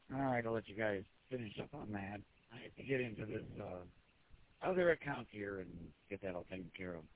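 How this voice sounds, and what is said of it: Raspy voice. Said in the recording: “You can hear all raspy on right now because this place has paint and thinners and stuff, and my chest doesn't like it.”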